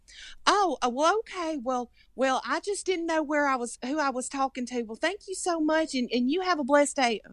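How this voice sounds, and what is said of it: Imitated Southern-accented customer. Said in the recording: “I can do the Southern accent ... the person that you just imitated.”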